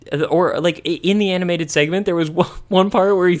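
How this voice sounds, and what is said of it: Usual voice. Nothing is said of it.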